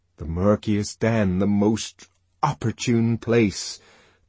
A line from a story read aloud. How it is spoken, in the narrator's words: the voice of conscience thundered poetically